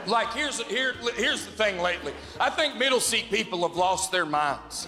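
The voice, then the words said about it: Speaks with a noticeable accent. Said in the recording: “when you have my accent and you tell people you hate to fly, they assume you do not know how airplanes work”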